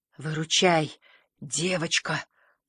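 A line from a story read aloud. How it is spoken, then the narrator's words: Hoarse pleading. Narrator (Russian): хриплым голосом попросил командир корабля оранжевый марсианин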